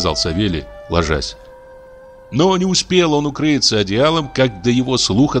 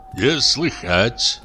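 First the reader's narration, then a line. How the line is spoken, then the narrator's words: Mumbled. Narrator (Russian): пробормотал дичок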